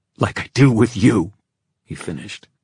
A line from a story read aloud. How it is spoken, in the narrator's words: the words spat out almost savagely